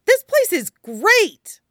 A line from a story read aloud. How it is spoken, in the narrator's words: Luffy exclaims